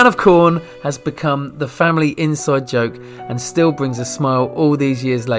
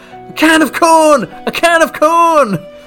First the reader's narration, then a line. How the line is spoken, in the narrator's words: All 5 people on both teams yelled out at the same time